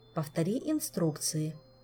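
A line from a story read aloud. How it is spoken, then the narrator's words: Quiet, commanding demand. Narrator (Russian): негромко и внушительно потребовала Кира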